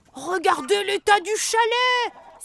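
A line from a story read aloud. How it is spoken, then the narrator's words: Elf's sudden cry. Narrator (French): s'écrie soudain un lutin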